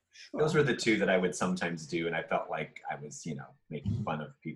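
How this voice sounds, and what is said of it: Usual voice. Nothing is said of it.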